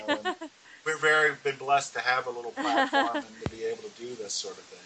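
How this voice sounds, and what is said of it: Baltimore accent. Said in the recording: “too thick of a Baltimore accent. I think it's showing up now and then”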